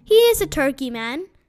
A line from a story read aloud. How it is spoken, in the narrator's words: said Mr